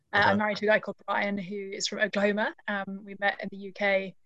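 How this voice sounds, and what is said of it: Non-American English accent. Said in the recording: “I'm the only person in my family who doesn't have an American accent”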